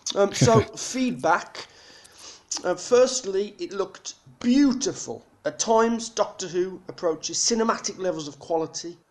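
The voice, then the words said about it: Black Country English accent. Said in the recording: “the Black Country accent”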